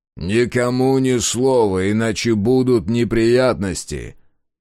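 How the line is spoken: Loud, for guards to hear. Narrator (Russian): Мемнан громко, чтобы услышали охранники, сказал

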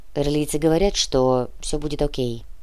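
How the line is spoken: Gloomy reply. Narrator (Russian): мрачно ответил Кортес

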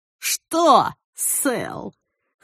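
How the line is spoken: Snorting guffaw. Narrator (Russian): хмыкнул Лохматый и заржал

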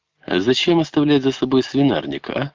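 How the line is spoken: Plain. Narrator (Russian): сказала она Невецкому

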